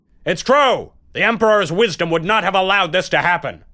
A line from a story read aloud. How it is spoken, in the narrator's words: Someone dared to shout out loudly